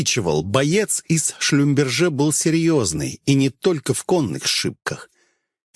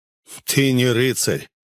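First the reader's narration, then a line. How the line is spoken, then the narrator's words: Snort. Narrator (Russian): хмыкнул тот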